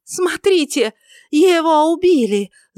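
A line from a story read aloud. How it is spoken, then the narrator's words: Screamed. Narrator (Russian): завопила она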